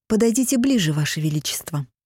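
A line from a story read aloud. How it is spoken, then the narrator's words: Plain. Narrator (Russian): сказала Бьянка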